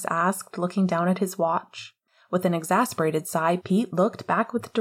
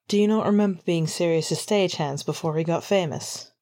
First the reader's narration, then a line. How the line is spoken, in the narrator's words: He asked flatly